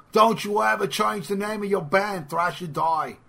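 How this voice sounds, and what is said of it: Impression of Mark Gallagher. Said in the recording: “that was my impression of Mark Gallagher”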